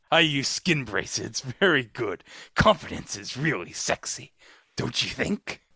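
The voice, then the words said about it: Jack Palance impression. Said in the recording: “your Jack Palance impersonation ... my impression of Jack Palance in that cologne commercial”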